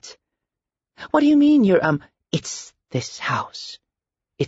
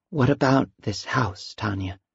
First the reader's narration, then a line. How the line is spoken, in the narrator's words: Tanya replied after a long pause, whispering half her words